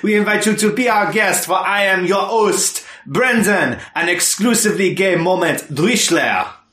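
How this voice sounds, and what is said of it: Ridiculous put-on accent. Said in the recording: “my ridiculous accent”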